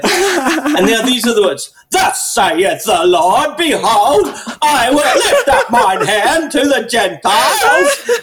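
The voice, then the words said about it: Impression of the B-52s singer. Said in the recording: “I should do this in the voice of the guy from the B-52s”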